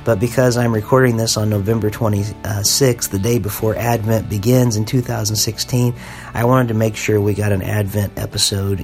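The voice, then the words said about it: Sick, voice starting to go. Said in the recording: “I am sick. I'm coughing a lot. I'm starting to lose my voice a little bit.”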